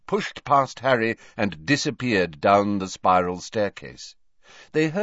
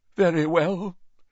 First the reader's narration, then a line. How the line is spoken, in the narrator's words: said Professor Trelawney, in a deeply wounded voice